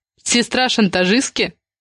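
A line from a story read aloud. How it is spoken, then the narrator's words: Snorting. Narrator (Russian): Влад хмыкнул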